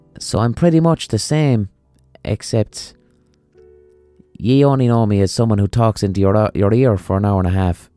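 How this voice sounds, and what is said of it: Neutral Limerick City accent. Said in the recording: “my accent isn't even a strong Limerick accent. It's a pretty neutral Limerick City accent”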